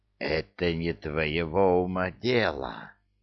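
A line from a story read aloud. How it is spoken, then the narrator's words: Hissed. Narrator (Russian): прошипел Джафар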